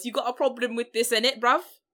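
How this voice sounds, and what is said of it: Exaggerated, poor British accent. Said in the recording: “I can do better British accents than this.”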